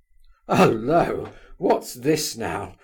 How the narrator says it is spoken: laughed Rogojin

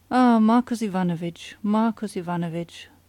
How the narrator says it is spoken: sighed

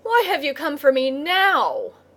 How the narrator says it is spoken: he cried angrily to the crab

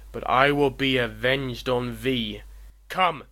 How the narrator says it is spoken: roared the digger of romance

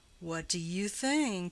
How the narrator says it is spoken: in a pregnant tone

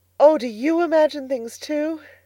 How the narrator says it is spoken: Anne of the Shining Eyes exclaimed joyfully

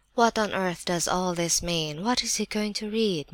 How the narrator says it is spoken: muttered several voices

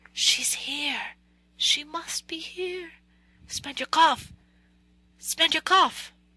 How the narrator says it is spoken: The old man wheezed, scarcely audibly

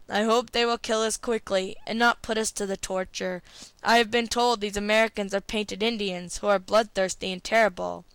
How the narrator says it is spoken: groaned aloud, and Benny said in a hollow voice

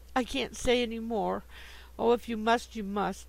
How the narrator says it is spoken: she said, bursting out into sobs that seemed to tear her heart

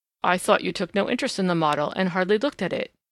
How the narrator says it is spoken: he said

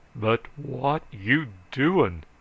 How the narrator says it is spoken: roared Bearfield

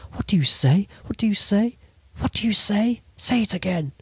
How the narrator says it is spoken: She stammered out, almost choking with her violent emotion

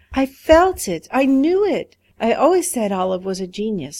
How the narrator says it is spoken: she cried

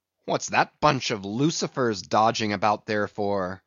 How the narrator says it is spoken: muttered Stubb

